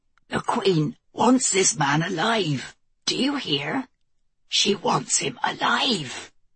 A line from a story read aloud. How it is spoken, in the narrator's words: Ewan took the moment of sudden silence to croak